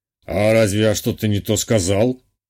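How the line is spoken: Smirking snort. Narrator (Russian): хмыкнул доктор-садист

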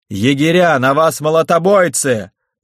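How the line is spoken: Shouting. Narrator (Russian): закричал Тверен

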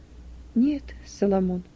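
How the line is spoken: Quiet. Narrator (Russian): ответила тихо Юдиф

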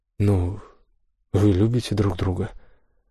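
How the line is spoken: Sad young woman's voice. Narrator (Russian): Голос девушки звучал более грустно

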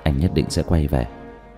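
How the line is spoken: Moved, steadied by deep breath. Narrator (Vietnamese): Diệp Thiếu Dương trong lòng khẽ động, hít sâu một hơi, nói với Chu Tĩnh Như

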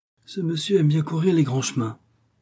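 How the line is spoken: Young man grumbling. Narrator (French): grommela le jeune homme

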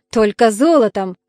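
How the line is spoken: Snort. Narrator (Russian): фыркнул Нестор

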